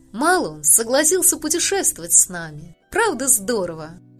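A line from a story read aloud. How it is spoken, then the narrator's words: Joyful barking. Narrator (Russian): Люси радостно гавкая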